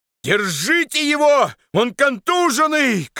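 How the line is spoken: Shout. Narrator (Russian): крикнул Андрей старшине

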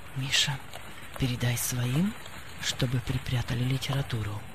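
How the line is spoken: Undertone. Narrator (Russian): хозяин вполголоса сказал

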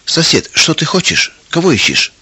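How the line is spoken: Calm, puzzled question. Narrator (Russian): Трофим Семенович, ничего не понимая, спокойно спросил

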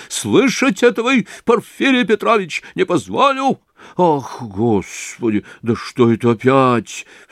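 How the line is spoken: Terrified cry. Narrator (Russian): вскрикнул, по-видимому, в совершенном испуге Порфирий Петрович

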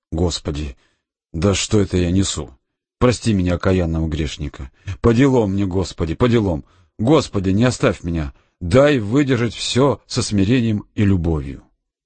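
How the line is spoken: Frightened. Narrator (Russian): испуганно произнес

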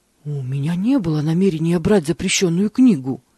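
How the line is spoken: Frightened monk. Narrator (Russian): испуганно ответил монах

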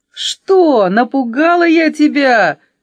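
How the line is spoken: Cheerful shout. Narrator (Russian): весело закричала 5

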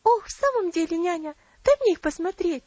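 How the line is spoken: Impatient exclamation. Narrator (Russian): с нетерпением воскликнула Элси

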